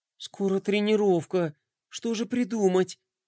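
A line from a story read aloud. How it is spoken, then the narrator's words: Thoughtful mutter to himself. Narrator (Russian): задумчиво пробормотал он себе под нос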